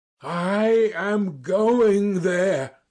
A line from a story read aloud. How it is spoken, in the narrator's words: I cried